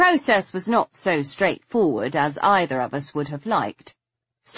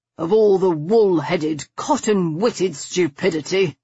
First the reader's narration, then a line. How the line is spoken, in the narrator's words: he grumbled